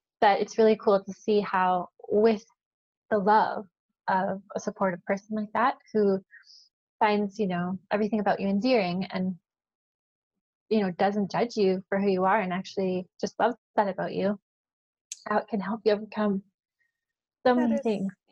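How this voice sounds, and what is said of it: Emotional, moved voice. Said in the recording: “a little emotional.”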